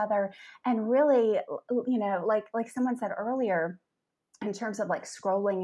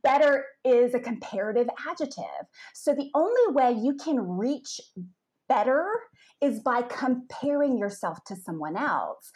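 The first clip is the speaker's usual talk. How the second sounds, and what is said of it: Attempted British accent. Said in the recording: “I can go into my British accent here if you like ... I don't know if I can pull it off”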